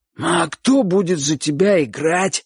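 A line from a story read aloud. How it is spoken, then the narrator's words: Hoarse pleading question. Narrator (Russian): спросил Бочу своим сиплым голосом, как бы умоляя Чика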